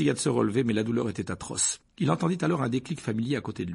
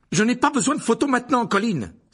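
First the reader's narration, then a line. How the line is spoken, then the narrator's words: Forceful exclamation. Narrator (French): s'écria-t-il avec force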